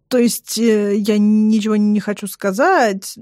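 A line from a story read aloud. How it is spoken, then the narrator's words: Mumbling. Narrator (Russian): начинаю мямлить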